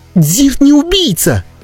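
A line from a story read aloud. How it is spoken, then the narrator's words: Shouted reply. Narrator (Russian): закричала в ответ Катибри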